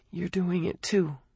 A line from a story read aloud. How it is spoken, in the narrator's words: she said softly